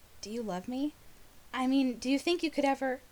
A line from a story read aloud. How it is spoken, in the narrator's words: in his head Rodney whispered